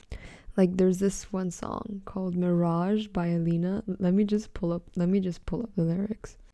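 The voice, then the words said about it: Lifeless, worn-out sounding voice. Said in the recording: “If I sound dead, I am so sorry. ... I really feel like I sound dead. ... my voice is kind of fucked”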